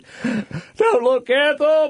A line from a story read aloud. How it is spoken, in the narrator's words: hollered